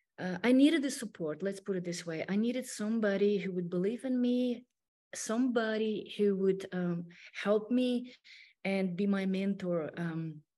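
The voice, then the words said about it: Non-native English accent. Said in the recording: “Obviously, you can hear my accent. It's not perfect. It's not 100%.”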